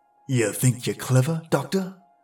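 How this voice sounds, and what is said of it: Threatening voice, light accent. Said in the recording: “The gravekeeper's accent was light, but his voice laden with threat”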